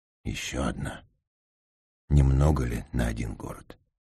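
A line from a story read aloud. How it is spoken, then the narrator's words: Barely audible mutter. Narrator (Russian): Он пробормотал, еле слышно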